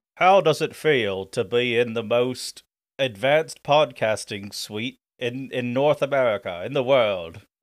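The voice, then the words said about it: Exaggerated British character voice. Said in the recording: “this character you're doing ... It's Major Zero ... I didn't want to do like a normal British accent ... he talks like, governor”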